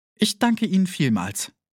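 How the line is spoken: Breathless woman. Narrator (German): erwiderte sie atemlos

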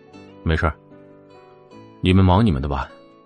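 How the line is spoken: Calm, indifferent. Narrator (Chinese): 良久，他对门外淡淡的说道

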